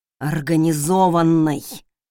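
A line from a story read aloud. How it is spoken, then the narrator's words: Exhaled. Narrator (Russian): выдохнул Хел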